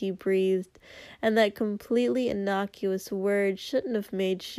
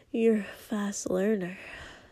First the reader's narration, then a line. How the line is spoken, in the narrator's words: Denki breathed